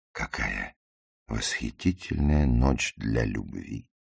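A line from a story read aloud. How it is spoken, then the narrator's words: Soft. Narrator (Russian): мягко произнес Ларри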